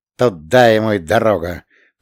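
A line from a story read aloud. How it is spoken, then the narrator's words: Grumbling. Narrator (Russian): проворчал Вольфенштейн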